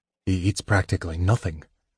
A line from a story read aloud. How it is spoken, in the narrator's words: Caramon said in a worried tone